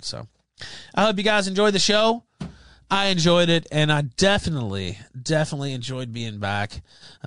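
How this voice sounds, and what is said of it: Tired, worn voice. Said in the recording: “my voice is kind of getting tired”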